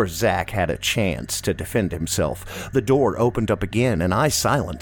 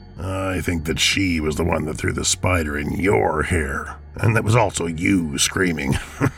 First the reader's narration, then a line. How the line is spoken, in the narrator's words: chuckled Bob